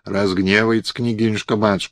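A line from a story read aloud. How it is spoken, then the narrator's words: Old woman whispering. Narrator (Russian): шептала старуха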